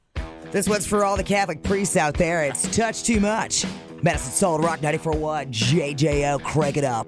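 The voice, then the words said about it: Radio announcer voice. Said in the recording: “you got to use your announcer voice because mm-hmm. it's pretty nice.”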